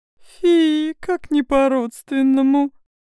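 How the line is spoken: Mocking laugh, displeased. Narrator (Russian): Королева издевательски рассмеялась и недовольно бросила через плечо

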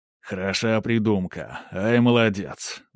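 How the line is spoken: Pleased deep bass. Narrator (Russian): довольно пробасил Велесов

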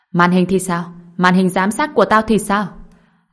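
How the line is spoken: Shout. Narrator (Vietnamese): Lâm Thanh Đế hét lên với người nọ

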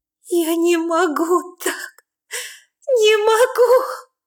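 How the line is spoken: Shout drowned in sobs. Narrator (Russian): Кричу я, но мой голос тонет в рыданиях

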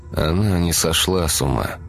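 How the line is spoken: Drawl. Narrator (Russian): протянул Игорь

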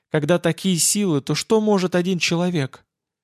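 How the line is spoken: Quiet reply from doorway. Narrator (Russian): с порога ответил негромко, не надеясь, что она услышит

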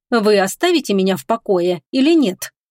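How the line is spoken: Firm voice. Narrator (Russian): твердым голосом произнесла Агата

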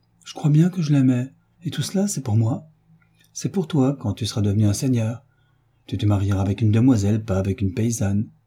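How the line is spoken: Plain. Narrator (French): dit-il

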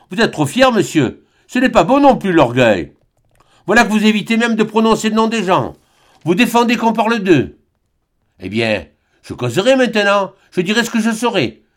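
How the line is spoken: Old servant crying out. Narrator (French): s'écria la vieille servante

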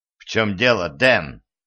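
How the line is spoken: Angry teacher asking. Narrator (Russian): сердито спросил преподаватель

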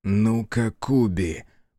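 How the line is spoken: Said through gritted teeth. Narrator (Russian): процедил Дзия

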